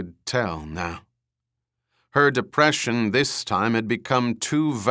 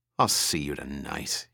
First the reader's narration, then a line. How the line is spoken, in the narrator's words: he finished bitterly